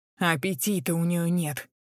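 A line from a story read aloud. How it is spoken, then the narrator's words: Grumbling. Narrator (Russian): проворчала Рози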